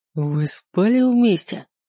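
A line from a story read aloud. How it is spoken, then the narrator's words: Angry growl. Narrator (Russian): прорычал гневно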